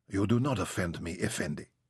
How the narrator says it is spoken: she whispered

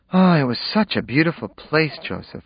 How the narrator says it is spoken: sighed

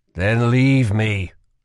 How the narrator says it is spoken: Kel would groan

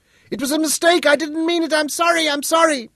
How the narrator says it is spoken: She sensed him gaining on her, and shouted

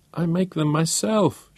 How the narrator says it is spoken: she wailed

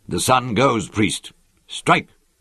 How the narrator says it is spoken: called abruptly, angrily, in the silence

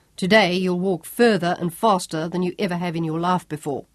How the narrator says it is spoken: told her harshly

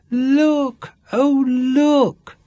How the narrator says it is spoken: squealed Candy

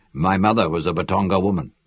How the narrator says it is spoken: he answered

